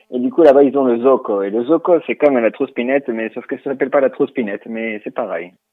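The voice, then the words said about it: Speaks French with an accent. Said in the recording (French): “on vous remercie pour votre accent”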